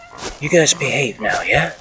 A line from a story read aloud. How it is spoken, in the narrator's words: I whispered hoarsely